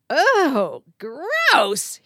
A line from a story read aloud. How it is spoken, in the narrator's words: he exclaimed